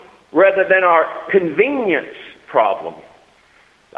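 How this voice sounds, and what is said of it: Usual voice. Nothing is said of it.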